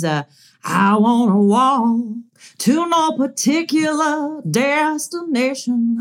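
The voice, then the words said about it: Imitates another person's voice. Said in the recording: “I do a really good Winona.”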